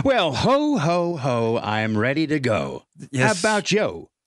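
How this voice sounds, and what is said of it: Corny 1960s game show host voice. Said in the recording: “his worst 1960s game show voice ... it was absolutely really horrendous”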